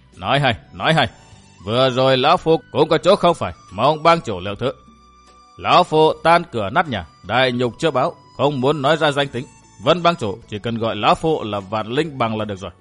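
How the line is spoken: Loud laughing old man. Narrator (Vietnamese): Hoàng Diện lão nhân cười lớn nói

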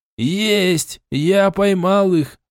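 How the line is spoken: Joyful announcement. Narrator (Russian): радостно оповестил

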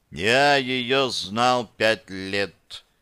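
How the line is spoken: Slow speech. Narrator (Russian): медленно проговорил он

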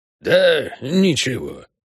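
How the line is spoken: Goblin's sigh. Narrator (Russian): вздохнул гоблин

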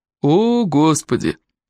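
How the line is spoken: Feigned sigh. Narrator (Russian): Энтони притворно вздохнул

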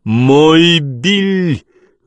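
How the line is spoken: Young man's shout. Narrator (Russian): выкрикнул молодой мужчина

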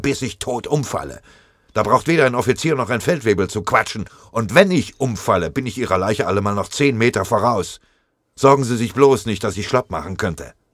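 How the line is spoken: Shouted. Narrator (German): schrie er

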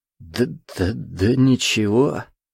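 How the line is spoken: Stammering. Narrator (Russian): заикаясь, произнес незнакомец

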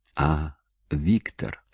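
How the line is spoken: Barely audible question. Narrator (Russian): чуть слышно спросила Маша

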